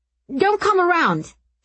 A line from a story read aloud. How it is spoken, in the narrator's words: he yelped